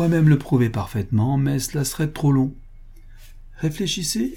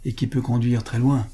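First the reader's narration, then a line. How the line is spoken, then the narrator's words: Low-voiced retort. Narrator (French): riposta le peintre à voix basse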